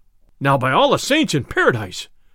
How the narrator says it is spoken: cried the sheriff

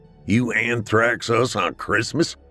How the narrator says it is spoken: Drew laughed

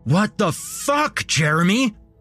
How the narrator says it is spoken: I screamed

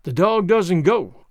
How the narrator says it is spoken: Walt announced in a determined voice

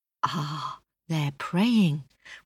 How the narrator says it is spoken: whispered the Yellow Dragon

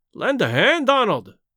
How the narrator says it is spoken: he cried

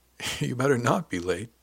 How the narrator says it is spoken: Diane said with a laugh

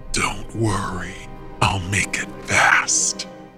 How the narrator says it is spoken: he rasped

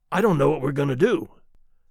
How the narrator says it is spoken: Charlie said in a faint voice

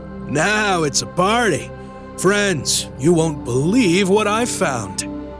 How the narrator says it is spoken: with his usual gusto, loudly declaring

